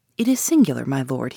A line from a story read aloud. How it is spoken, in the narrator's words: he said